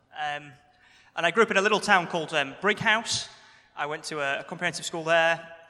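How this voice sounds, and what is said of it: Slight Yorkshire accent. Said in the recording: “I grew up in Yorkshire. I have some of that accent left, but it's been slightly dulled.”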